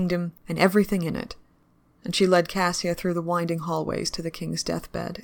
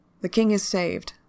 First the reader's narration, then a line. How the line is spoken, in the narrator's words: the princess said